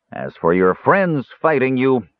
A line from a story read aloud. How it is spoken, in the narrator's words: the dwarf sneered